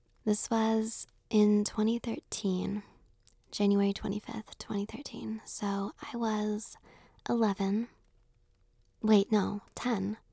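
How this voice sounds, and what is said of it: Hoarse, fading voice. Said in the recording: “I'm kind of losing my voice, as you can tell”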